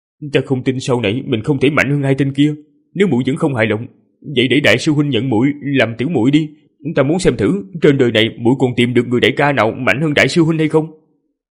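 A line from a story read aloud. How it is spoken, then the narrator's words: Grimacing mutter. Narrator (Vietnamese): Hắn méo mặt lẩm bẩm với Sơn Sơn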